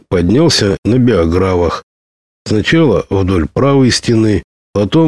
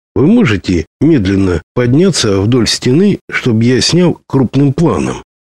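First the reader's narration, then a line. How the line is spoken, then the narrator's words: Plain. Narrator (Russian): спросил он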